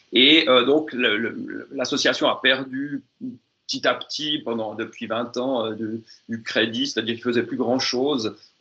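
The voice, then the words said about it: Swiss French accent. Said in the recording (French): “si vous avez, je pense, entendu mon accent suisse, en Suisse romande, donc francophone”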